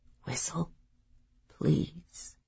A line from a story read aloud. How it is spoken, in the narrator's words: she whispered